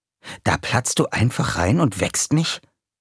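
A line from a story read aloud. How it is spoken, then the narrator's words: Hissed. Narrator (German): zischte er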